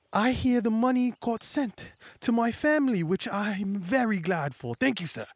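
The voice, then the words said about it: Put-on accent for a character. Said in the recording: “I don't know why I'm doing that accent”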